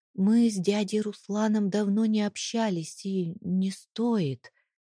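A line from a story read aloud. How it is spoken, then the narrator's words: Deliberately soft speech. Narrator (Russian): произнесла наконец, стараясь говорить мягко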